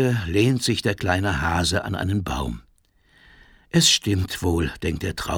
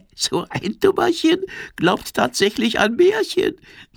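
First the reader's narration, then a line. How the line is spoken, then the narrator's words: Giggling. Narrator (German): kichert die Libelle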